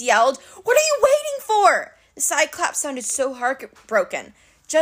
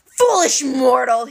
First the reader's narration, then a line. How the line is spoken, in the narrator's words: he bellowed